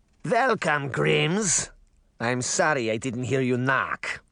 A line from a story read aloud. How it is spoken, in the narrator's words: said in a thick Russian accent